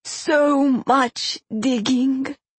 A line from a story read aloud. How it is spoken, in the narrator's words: he moaned